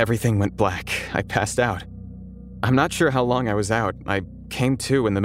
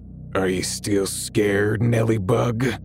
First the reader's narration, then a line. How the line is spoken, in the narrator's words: In the same deep, gravelly voice, he said